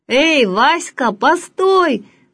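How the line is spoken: Shouting after someone. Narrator (Russian): кричали ему вдогонку

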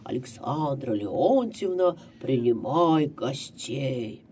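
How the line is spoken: Loud deep female exclamation. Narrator (Russian): высокая женщина воскликнула громким басом

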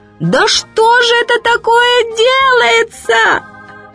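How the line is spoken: Shouting. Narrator (Russian): матушка Медоуз как закричит

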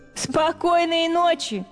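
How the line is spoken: Mice laughing. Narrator (Russian): смеялись мыши

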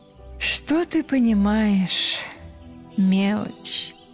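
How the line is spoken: Languid sighing girl. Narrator (Russian): Томно вздохнула девушка

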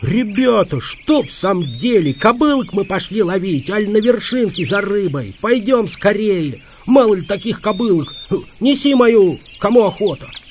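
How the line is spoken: Howling. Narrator (Russian): Петька взвыл

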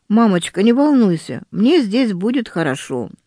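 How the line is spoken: Sudden, calm. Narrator (Russian): Верочка вдруг спокойно сказала

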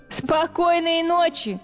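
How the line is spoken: Mice laughing. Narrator (Russian): смеялись мыши

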